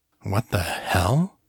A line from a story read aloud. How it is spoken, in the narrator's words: he muttered